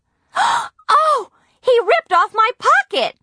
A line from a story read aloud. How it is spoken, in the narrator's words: Nancy screamed